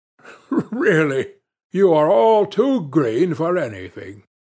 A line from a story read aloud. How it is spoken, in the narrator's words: Loiseau, writhing with laughter, exclaimed